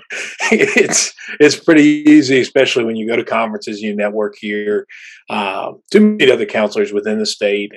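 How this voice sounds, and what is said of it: Very deep West Virginia accent. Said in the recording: “What is the deal with ... voice? ... it's very deep ... like a Yellowstone ... we've got some nice accents here in West Virginia”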